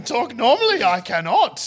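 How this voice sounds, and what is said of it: Yoda impression. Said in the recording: “does a good Yoda impression ... Yoda, talk normal. ... your Yoda”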